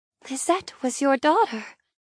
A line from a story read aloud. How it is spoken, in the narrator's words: I whisper, lifting my gaze to her in horror